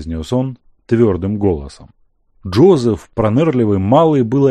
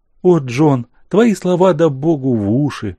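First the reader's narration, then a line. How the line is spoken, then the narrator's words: Smiling through tears. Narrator (Russian): Сквозь слезы улыбнулась она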